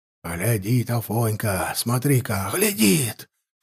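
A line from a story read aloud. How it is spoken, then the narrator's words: Huntsmen whispering together. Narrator (Russian): шептались егеря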